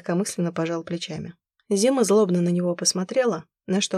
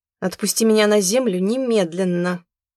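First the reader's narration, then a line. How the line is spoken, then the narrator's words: Barked command. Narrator (Russian): рявкнула она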